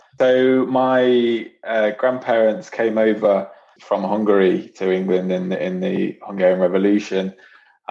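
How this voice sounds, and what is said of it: English Nottingham accent. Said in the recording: “you've got a nice English accent there... Nottingham accent”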